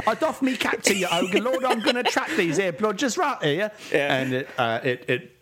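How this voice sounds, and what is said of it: Fake Cockney accent. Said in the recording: “I've never heard a New Zealand person do a fake Cockney accent, and I'm having a very good time.”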